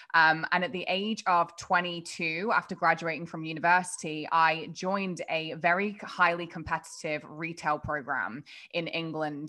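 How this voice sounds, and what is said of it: English accent. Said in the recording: “as you can probably tell by my accent, I'm not local to the States or to Canada. I'm actually from England.”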